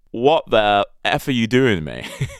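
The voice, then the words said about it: English accent. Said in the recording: “this English accent suddenly comes at me”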